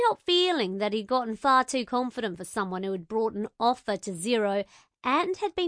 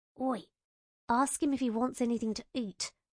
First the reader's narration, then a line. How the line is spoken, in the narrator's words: I muttered